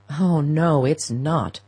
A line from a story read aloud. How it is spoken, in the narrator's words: her son groaned